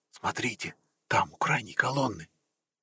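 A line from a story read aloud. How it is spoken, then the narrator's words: Prince whispering. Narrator (Russian): принц почему-то шепотом сказал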